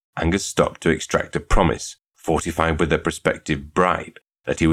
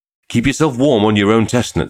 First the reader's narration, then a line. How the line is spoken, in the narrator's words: he said earnestly